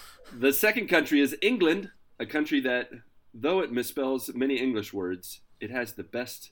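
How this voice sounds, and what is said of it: Usual voice. Nothing is said of it.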